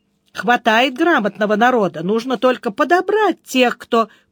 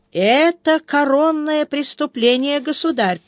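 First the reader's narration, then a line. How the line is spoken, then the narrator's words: Sad voice. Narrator (Russian): печально сказал министр полиции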